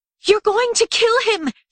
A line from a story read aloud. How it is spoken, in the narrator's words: she shrieked